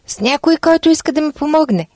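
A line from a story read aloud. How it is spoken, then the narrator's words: Desperate shout. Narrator (Bulgarian): Човекът, отчаян, че вейката всеки момент ще се прикърши, извикал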